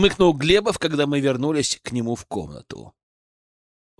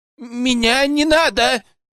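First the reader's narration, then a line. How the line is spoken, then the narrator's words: Shrill yelp. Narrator (Russian): взвизгнул врач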